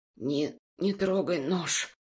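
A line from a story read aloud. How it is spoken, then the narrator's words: Rasping. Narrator (Russian): прохрипел я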